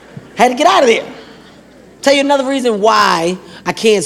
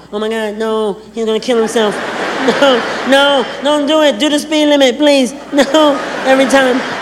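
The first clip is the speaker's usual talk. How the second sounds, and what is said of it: Imitates a woman's voice. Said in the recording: “my impression of women”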